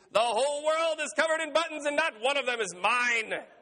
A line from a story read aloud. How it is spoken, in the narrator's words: He screamed